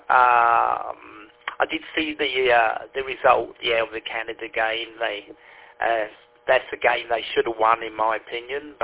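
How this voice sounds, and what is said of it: London English accent. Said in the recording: “my London accent stuck with me ... my London accent hasn't gone away”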